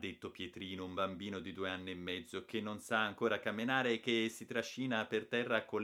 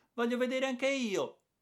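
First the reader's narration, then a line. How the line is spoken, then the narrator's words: Little sister exclaiming eagerly. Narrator (Italian): ha esclamato subito la Geppina, che è la sua sorella minore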